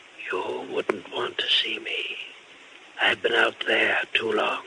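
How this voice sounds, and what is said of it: Whispering ghostly voice. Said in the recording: “Why are you whispering?”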